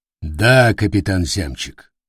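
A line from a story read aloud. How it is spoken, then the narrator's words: Cold. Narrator (Russian): холодно ответил канцлер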